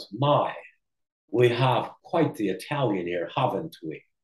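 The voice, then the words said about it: English accent, Peter Yates impression. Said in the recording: “Peter Yates, his English accent”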